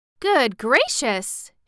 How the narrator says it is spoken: she exclaimed

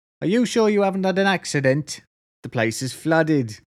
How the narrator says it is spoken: She shouts back into her mother

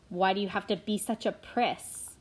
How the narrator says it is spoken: Will, who was a wiry boy of 16, snarled

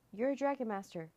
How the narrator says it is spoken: Drake blurted out

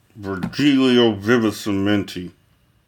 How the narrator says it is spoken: a fever of hatred, said through clenched teeth

